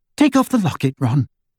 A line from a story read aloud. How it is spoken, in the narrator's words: Hermione said, her voice unusually high